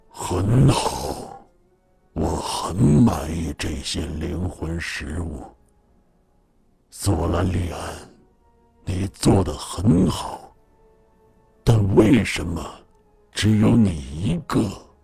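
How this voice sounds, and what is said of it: Deep, echoing voice from the abyss. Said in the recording (Chinese): “一个浑厚、仿佛深渊中回声一样的声音”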